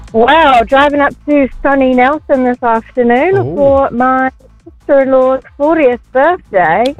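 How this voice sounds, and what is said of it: English accent. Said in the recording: “She's got an accent. ... from England.”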